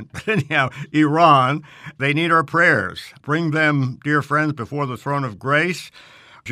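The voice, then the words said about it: New York City accent. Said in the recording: “I've been saying Iran. I guess that's my New York City accent.”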